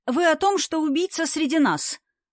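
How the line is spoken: Cheerful, smiling. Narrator (Russian): радостно улыбаясь, сказал Вовка

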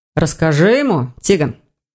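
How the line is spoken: Through gritted teeth. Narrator (Russian): сквозь зубы проговорил Хью

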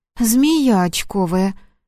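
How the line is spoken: Breathed out in recognition. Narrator (Russian): выдохнула Марина, узнав Корчук

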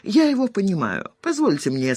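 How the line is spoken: Funereal voice. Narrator (Russian): сказал Паша Рубакин своим похоронным голосом

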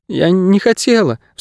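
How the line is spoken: Sobbing. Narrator (Russian): всхлипнула Кейса

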